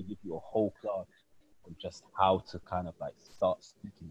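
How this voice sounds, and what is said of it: Usual voice. Nothing is said of it.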